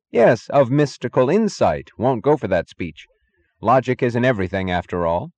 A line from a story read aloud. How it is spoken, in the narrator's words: he repeated firmly